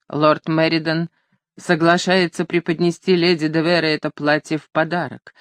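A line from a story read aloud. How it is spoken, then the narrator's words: Flat colorless voice. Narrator (Russian): закончила мадам Бертен бесцветным голосом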